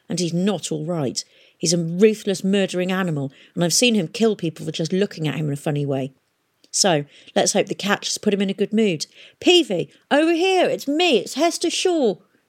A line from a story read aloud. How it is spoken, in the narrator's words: snapped Hester